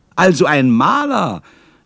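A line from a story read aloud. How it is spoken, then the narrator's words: Cheerful exclamation. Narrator (German): rief ich fröhlich aus, denn mir fiel dabei Herr Leonhard und Guido ein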